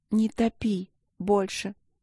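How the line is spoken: Muffled plaintive plea. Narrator (Russian): Уткнувшись носом в плечо, жалобно попросила

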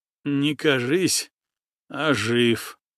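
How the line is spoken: Displeased groan. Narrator (Russian): Андреев недовольно застонал

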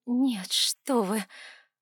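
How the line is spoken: Mumbled. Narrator (Russian): промямлила я

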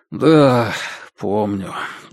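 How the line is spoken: Sighing. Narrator (Russian): вздохнул тот

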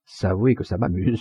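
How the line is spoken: Plain. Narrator (French): dit-elle

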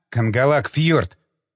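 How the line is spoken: Angry interruption. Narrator (Russian): оборвал я его сердито

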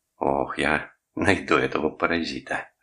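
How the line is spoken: Loud laughter. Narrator (Russian): расхохотался он

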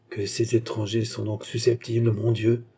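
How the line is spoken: German man murmuring. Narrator (French): murmura Bemer, qui était un Allemand

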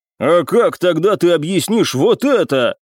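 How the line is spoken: Sharp growl. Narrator (Russian): рыкнул на подчиненного Залесский

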